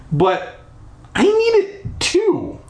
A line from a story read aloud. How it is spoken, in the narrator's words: I sputtered